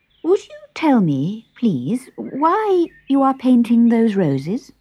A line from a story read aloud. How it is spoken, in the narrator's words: Alice said, rather timidly